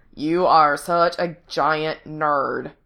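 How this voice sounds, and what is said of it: Exaggerated Valley Girl accent. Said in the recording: “says in an exaggerated Valley Girl accent.”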